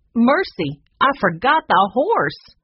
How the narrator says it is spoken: she cried

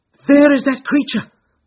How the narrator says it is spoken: cried Grant Munro

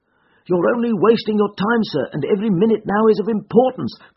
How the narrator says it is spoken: cried the commissionaire

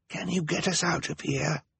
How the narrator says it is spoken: Klaus whispered

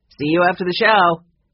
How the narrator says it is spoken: called out cheerfully

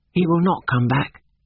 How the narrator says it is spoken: said George

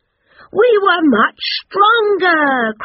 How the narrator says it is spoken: cried Peter, Paul, Patrick, Philip, Frankie and Fred

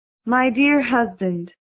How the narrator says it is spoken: she said in a sweet voice

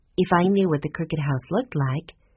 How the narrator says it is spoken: Violet said in her gentle voice

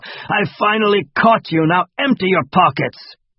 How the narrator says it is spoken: Hugo growled like a dog

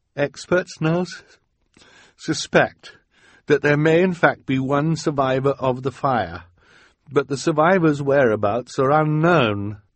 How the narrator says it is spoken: he recited tearfully

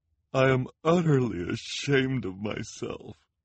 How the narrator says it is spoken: said, through her tears, and her shoulders shook with sobs

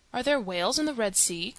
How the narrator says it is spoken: Conseil asked

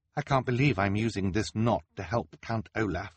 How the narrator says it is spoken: she said

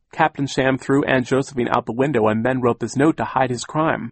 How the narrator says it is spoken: Sunny shrieked

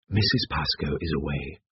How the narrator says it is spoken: whispered Alain

